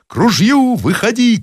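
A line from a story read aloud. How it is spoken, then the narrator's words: Shouting at full voice. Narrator (Russian): кричал во все горло Зарядьев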